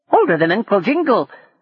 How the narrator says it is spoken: giggled another

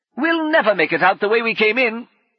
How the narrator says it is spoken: Brummond shouted

